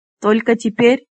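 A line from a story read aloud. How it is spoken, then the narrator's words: Mocking question. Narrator (Russian): насмешливо спросил Флар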